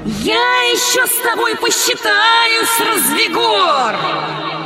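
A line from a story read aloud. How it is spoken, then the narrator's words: Bird shouting. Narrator (Russian): Птица Гагана крикнула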